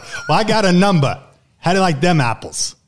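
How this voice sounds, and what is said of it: Bad attempt at Boston accent. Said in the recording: “God, that's bad. ... That was an attempt at a Boston accent.”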